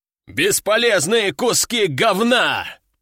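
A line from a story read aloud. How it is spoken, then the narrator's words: General growling. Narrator (Russian): прорычал генерал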